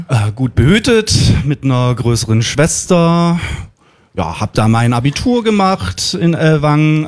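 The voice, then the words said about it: Swabian German accent. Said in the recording (German): “geschwäbelt?”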